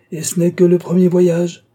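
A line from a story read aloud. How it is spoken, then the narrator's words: Final exclamation. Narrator (French): finit par s'exclamer Willy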